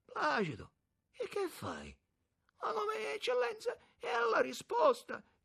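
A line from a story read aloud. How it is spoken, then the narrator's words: Moaned. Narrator (Italian): gemette il capitano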